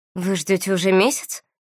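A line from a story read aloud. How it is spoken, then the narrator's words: Breathless exhale. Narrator (Russian): выдохнула Валери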